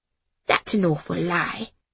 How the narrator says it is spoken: She whispered back

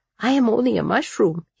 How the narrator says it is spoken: he whispered

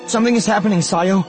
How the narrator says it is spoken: she said, her voice tight

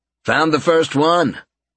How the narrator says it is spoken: he called out

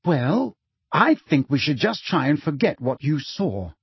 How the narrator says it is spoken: said Hermione firmly

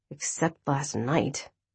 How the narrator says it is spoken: I mumbled under my breath, apparently louder than I intended

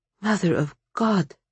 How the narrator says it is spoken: Vasya whispered

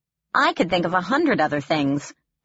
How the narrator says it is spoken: I noted dryly

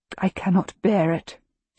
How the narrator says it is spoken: she says, her voice strained with grief

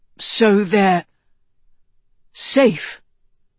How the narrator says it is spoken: Tedros asked anxiously

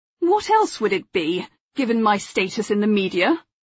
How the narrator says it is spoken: Philip snapped

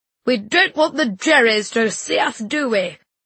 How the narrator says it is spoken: bellow

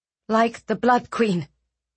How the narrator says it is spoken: Eliana said sharply

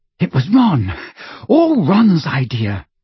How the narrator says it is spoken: said Hermione breathlessly

